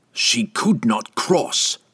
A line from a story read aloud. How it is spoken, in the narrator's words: Entreri spat back in his face